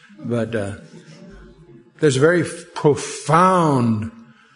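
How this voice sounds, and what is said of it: Usual voice. Nothing is said of it.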